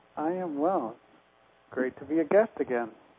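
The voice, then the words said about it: Quiet, soft-spoken voice. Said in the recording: “would you turn up the volume on your voice just a bit for us? ... my voice tends to get quieter”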